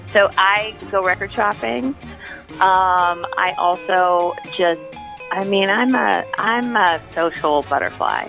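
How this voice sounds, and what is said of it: Speaks with a noticeable accent. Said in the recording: “my accent probably”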